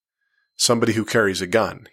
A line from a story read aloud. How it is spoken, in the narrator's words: said with a snort